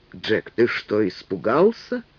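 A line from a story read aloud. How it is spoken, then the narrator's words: Stern question. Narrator (Russian): строго спросил приор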